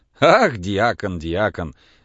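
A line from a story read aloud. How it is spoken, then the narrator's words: Laughing. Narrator (Russian): засмеялся зоолог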